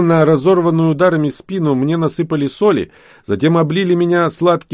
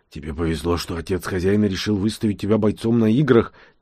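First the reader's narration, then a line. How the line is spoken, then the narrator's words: Quiet boy's voice. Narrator (Russian): тихо говорил мне мальчик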